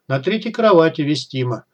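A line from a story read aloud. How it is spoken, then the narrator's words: Amused grunt. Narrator (Russian): я хмыкнул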